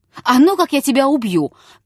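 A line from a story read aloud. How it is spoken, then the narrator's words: Sudden shout. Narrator (Russian): крикнул он вдруг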